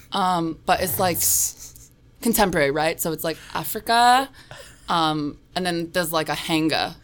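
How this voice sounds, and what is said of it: Noticeable non-native accent. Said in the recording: “your accent ... Sometimes I have to speak slower.”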